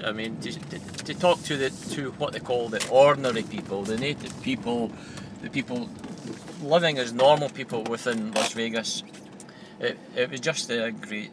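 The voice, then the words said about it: Scottish accent. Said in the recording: “they recognise your accent, and they wanted to know all about Scotland”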